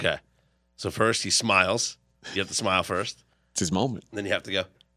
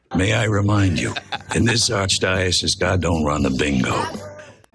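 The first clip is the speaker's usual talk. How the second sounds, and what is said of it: Imitates another person's voice. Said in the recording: “Fez impersonation. the master of impersonations.”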